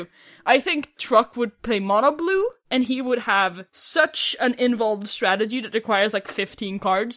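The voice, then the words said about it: Swedish accent. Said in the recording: “How come your Swedish accent is stronger in HD as well? ... I can hear it better ... I'm being more Swedish.”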